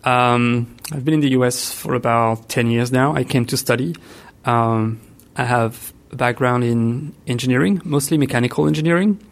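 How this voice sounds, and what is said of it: French accent. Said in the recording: “I was born in France, which explains the accent.”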